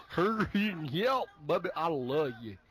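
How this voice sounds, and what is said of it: Bad Nicolas Cage southern accent impression. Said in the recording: “Con Air was the absolute worst with his fucking accent ... he tried to play a guy from, like, Alabama ... it was horrible”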